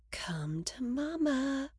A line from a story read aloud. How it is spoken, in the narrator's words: murmur, with defiance